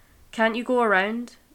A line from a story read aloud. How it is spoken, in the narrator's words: a man yelled at Sam